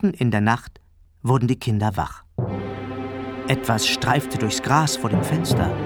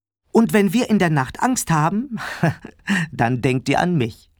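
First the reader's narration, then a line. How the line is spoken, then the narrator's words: Father adding, laughing. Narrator (German): ergänzte Papa lachend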